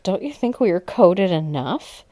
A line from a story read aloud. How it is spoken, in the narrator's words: laughed